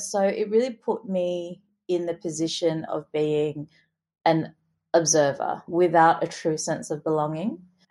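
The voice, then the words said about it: Australian accent. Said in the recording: “I speak with an Australian accent. My Singaporean friends still think that I fake this accent”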